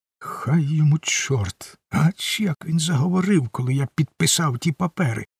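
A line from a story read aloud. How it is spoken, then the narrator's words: Muttering to himself. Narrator (Ukrainian): пробурмотів Гейлі сам до себе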